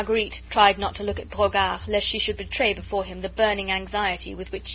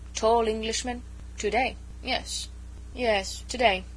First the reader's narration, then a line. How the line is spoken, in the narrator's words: muttered Brogard sullenly